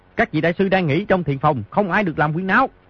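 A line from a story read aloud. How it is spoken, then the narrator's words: Shouting. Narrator (Vietnamese): Di Tiểu Bảo quát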